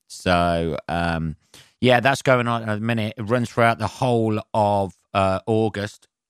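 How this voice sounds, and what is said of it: Hoarse, strained voice. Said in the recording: “losing my voice already”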